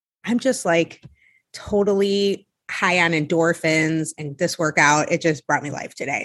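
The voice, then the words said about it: Breathless, out-of-breath speech. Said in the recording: “If I sound breathless, it's actually because I just finished a workout ... out of breath,”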